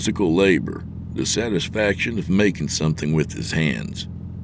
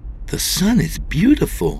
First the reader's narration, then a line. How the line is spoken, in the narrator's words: she exclaimed